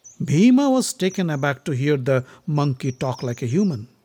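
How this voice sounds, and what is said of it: Usual voice. Nothing is said of it.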